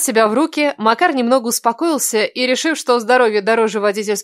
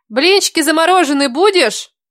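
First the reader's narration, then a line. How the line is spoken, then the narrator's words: Called out from another room. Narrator (Russian): крикнула ему из кухни Кира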